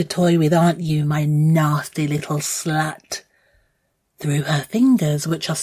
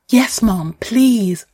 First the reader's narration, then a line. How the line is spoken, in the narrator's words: I gasp